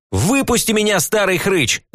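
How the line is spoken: Yelled reply. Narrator (Russian): заорал я в ответ

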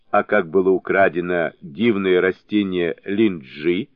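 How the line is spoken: Plain question. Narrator (Russian): спросил правитель

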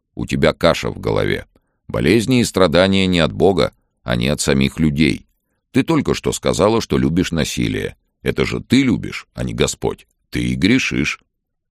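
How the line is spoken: Stern. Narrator (Russian): строго сказал

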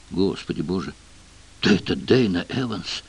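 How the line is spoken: Crowd whispering. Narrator (Russian): По толпе прошел шепоток

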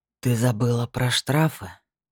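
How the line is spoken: Husky purr. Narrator (Russian): хрипло проурчал этот демон

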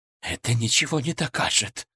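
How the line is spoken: Hissed. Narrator (Russian): прошипел

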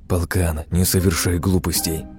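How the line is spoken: Secretive whisper. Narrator (Russian): Скрывая нашу беседу от городовых, продолжил шептать

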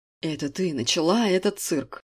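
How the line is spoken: Steely, cutting off. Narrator (Russian): Стальным голосом оборвал ее Александр

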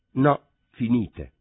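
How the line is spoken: Plain. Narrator (Italian): rispose

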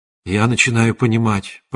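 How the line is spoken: Whispered. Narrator (Russian): прошептал

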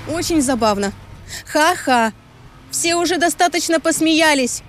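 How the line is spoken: Shouting. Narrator (Russian): прокричала я

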